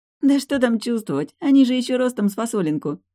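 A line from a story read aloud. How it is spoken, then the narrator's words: Laughing female doctor. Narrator (Russian): засмеялась врач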